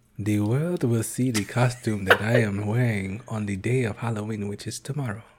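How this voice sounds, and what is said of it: Put-on Wakandan accent. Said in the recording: “you sound like a straight Wakanda there ... Did it sound like a gay Wakanda?”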